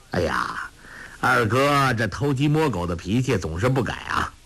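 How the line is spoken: Laughing. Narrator (Chinese): 笑弥陀张阿生笑道

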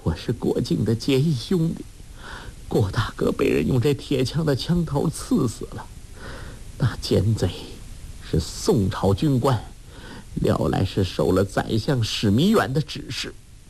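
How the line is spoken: Broken sobbing speech. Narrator (Chinese): 杨康边哭边说，涕泪滂沱，断断续续的道

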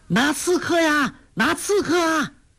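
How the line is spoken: Loud shout. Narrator (Chinese): 高声叫喊

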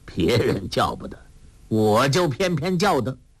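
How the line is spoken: Laughing. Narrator (Chinese): 洪七公笑道

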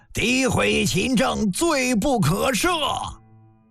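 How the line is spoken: Angry shout in unison. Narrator (Chinese): 大臣们义愤填膺，齐齐吼了一声

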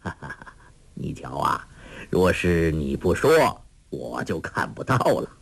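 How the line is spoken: Laughing. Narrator (Chinese): 一灯向黄蓉笑道

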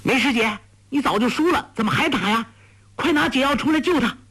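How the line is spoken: Shouting. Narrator (Chinese): 黄蓉叫道

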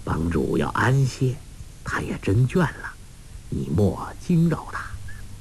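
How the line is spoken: Soft voice, smiling. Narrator (Chinese): 彭长老微笑低声说

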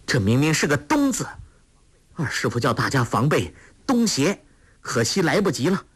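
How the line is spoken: Calling out. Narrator (Chinese): 郭靖叫道

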